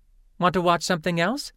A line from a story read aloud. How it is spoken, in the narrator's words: Lynn asked eagerly